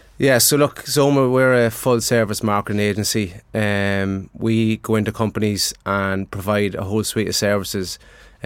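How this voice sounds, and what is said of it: Strong Dundalk Irish accent. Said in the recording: “strong Dundalk accent come to the fore”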